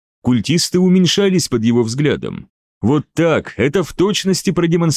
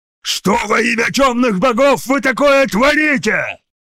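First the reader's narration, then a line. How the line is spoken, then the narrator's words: Roared. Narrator (Russian): взревел комиссар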